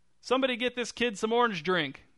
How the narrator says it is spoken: shouted Mr

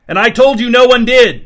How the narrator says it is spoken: shouted the pawnbroker, abruptly furious

